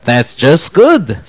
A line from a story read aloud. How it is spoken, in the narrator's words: said Aaron happily